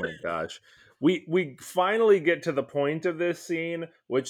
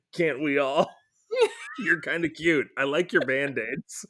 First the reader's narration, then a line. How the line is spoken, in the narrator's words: giggles and she says